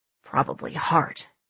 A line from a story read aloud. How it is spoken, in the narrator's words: Slate muttered